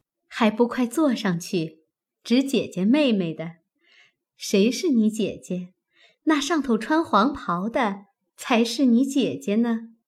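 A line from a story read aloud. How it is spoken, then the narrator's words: Quiet laughing. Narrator (Chinese): 宝钗亦悄悄地笑道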